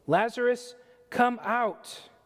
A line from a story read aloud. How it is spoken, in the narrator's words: Jesus called in a loud voice